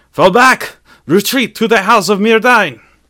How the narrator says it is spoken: Celebrimbor, stammering for breath, yelled

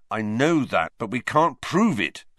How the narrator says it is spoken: said Wood bitterly

